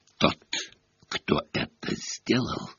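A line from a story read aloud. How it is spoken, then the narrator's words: Hissed. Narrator (Russian): прошипел Снег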